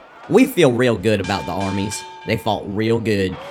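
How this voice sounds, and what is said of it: Speaks with an unexpected accent. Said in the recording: “people are very surprised when they hear you speak ... nobody expects me to have an accent”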